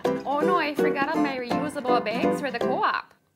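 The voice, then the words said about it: Minnesotan accent. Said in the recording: “To give you an idea of the Minnesotan accent... This is the sound of the Minnesotan accent.”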